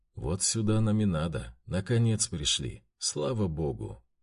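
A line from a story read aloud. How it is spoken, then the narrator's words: Quiet statement. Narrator (Russian): тихо заявил старший ватаги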